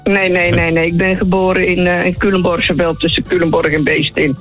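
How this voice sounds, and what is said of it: Dutch regional Betuwe accent. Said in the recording (Dutch): “ik hoor een accent wat komt uit de Betuwe ... dit is niet helemaal IJsselsteins”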